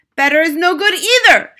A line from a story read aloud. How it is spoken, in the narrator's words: shrieked the Grand High Witch